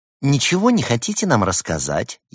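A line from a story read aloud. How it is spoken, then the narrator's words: Snide question. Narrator (Russian): ехидно поинтересовалась Берта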